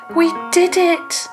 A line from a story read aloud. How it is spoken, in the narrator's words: Molly said happily